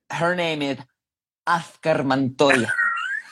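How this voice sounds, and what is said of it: Put-on thick Latin accent. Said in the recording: “can you say it with a thick Latin accent, please?”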